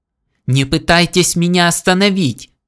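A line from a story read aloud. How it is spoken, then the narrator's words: Mayor yelling. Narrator (Russian): заорал мэр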